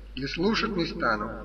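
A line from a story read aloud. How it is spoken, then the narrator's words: Whispering into ear. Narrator (Russian): зашептал самое ухо его Коровьев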